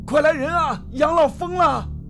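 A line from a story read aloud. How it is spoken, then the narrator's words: Shout. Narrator (Chinese): 这一声喊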